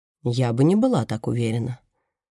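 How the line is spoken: Even, level voice. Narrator (Russian): ровным голосом отвечает Мерседес

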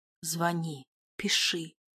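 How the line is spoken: Whispering. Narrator (Russian): прошептал Нина

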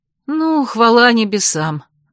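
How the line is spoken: Relieved sigh, laughing. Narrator (Russian): облегченно вздохнула я, рассмеявшись

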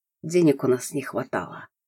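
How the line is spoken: Voice breaking into rasp. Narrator (Russian): произнес он, и голос сорвался до сухого, сдавленного хрипа

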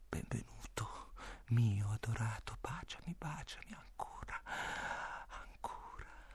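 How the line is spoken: Whispered. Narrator (Italian): mi bisbiglia

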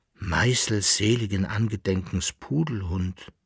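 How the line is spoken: Dismayed murmur. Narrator (German): murmelte der Bärl-Landfahrer betroffen

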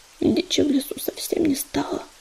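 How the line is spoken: Incoherent mumbling. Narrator (Russian): бессвязно забормотал он

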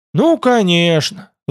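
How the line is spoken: Sigh. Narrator (Russian): вздохнул Тмор

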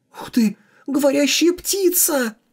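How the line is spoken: Delighted squeal. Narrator (Russian): Восторженно взвизгнула Хуан Фужуй

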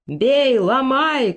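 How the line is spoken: Crowd shouting. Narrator (Russian): кричали у ворот храма

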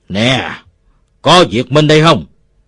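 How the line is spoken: Roaring. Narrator (Vietnamese): Một đứa gầm lên

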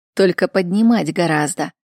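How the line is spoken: Mocking. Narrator (Russian): насмешливо сверкая глазами, добавил он

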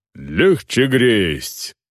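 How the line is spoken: Growling. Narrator (Russian): прорычал Сайват

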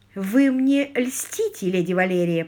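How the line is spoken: Sweet voice. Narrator (Russian): произнесла она сладким голосом

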